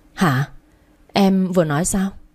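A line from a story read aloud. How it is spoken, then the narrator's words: Stammering disbelief. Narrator (Vietnamese): Cảm giác không sao mà tin nổi, lắp bắp mãi mới nói thành lời hoàn chỉnh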